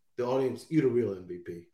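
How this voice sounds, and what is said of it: Imitates another person's voice. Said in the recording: “In my Kevin Durant voice,”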